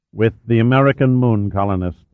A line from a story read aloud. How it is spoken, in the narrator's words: he added flatly